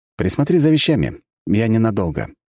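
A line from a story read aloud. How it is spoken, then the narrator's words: Polite request. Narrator (Russian): вежливым тоном попросил я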